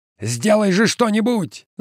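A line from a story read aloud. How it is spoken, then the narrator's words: Shouting. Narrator (Russian): закричал Каскер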